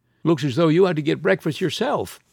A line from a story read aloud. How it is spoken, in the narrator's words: observed brightly